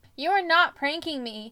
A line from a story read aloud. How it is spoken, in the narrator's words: I yelled